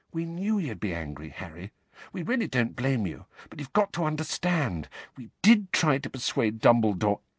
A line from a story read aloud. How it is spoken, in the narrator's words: Hermione said quietly